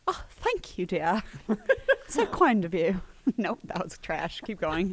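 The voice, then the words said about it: Put-on British accent. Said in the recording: “No one gave me this accent. I chose it on my own. ... See? British.”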